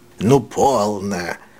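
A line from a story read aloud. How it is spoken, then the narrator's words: Less solemn, flattered. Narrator (Russian): сказал мистер Бамбл, и уже не таким торжественным тоном, ибо ему лестно было видеть, какое впечатление производит его красноречие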